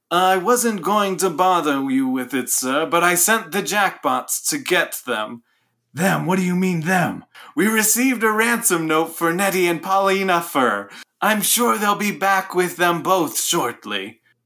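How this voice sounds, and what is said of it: Butler character voice. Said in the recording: “you're now the butler, and you have to do the voice.”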